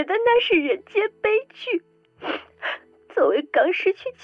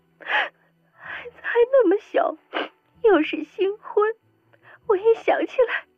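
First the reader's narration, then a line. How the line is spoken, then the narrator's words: Tearful sobbing. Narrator (Chinese): 赵曼，对着镜头哭得梨花带雨的，不断说着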